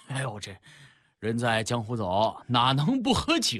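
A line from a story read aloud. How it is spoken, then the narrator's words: Chuckling. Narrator (Chinese): 大哥也呵呵笑道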